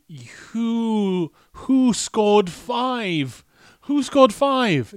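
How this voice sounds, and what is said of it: Sleepy bad referee voice. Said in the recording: “my impression of a really bad referee ... Or like a really sleepy football fan”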